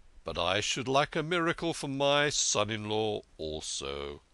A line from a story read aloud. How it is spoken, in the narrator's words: grumbled the king